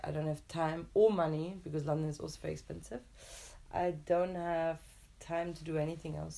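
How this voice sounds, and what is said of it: European accent with English tinge. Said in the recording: “you have a bit of an English accent... this weird European English accent”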